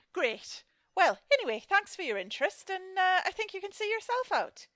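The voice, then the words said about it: Poorly done put-on accent. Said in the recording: “terrible accent work”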